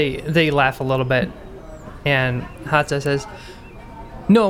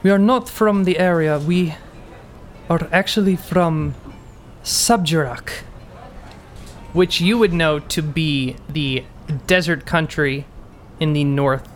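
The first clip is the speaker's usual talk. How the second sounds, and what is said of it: Puts on a foreign character accent. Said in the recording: “There we go. There's the accent.”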